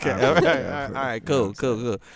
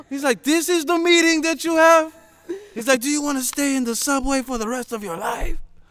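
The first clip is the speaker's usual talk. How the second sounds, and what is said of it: Put-on Spanish accent. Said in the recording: “So I'm doing like a Spanish accent somewhere in between.”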